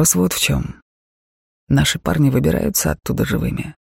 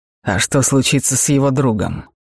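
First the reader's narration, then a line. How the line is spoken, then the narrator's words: Rather sharp question. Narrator (Russian): спросил довольно резко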